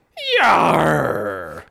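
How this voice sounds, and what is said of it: Exaggerated pirate voice. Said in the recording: “bad pirate accents ... talk like Blackbeard”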